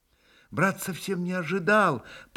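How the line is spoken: Muttered. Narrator (Russian): пробормотал был Алеша

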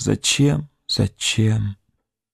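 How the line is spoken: Sad, repeating insistently. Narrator (Russian): печально твердила

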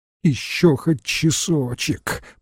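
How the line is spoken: Moaning plea. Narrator (Russian): простонала бригадирша

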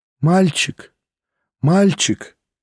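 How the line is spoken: Pained voice, asking. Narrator (Russian): болезненным голосом спросила она

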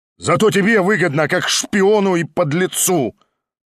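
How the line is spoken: Shouting. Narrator (Russian): прокричал Шатов

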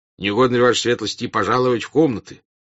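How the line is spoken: Displeased voice. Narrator (Russian): недовольным голосом сказал дежурный генерал

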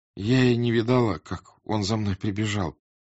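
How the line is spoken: Timid. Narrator (Russian): робко сказала она

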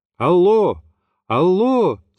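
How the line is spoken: Shouting into phone. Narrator (Russian): закричал я, полагая, что связь оборвалась

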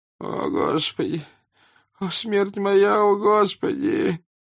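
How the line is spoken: Soldier groaning louder. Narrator (Russian): громче застонал солдат

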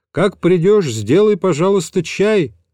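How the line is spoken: Calling after someone. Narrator (Russian): крикнул я ему вдогонку

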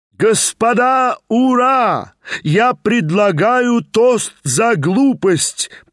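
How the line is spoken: Frenzied shouting. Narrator (Russian): прокричал Степан Трофимович уже в совершенном исступлении

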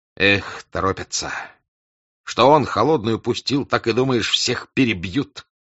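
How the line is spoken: Angry, reproachful. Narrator (Russian): говорил унтер-офицер сердито и укоризненно

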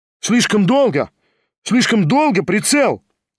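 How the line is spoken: Rapid shout. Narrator (Russian): стремительно прокричал Кириллов

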